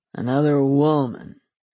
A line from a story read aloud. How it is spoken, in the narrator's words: he growled